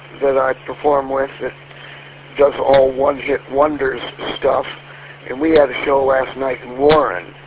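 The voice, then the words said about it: Sick-sounding voice. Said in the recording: “came down with a cold right before the first rehearsal ... You can probably hear it in my voice”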